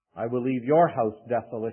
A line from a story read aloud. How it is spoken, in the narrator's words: he says